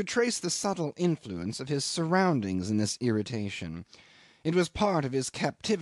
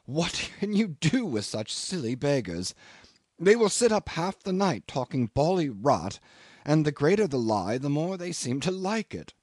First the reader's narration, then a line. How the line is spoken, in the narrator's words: exclaim with an exasperated little laugh